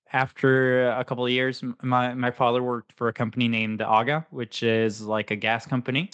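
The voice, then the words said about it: American-sounding accent. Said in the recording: “my American accent kind of comes from”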